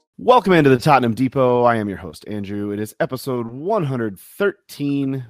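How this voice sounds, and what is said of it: Tired, worn-out voice. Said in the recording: “If you can hear it in my voice,... that is just simple jet lag.”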